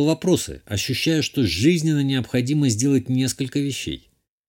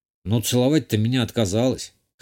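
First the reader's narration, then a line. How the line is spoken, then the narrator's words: Snort. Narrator (Russian): Хмыкнул я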